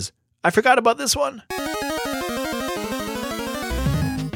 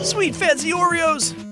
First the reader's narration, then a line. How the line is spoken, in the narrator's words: cried Vale